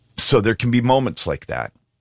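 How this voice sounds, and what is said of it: Choked up, emotional voice. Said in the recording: “Hadn't planned to get choked up.”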